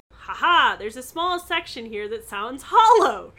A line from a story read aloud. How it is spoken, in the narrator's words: she exclaimed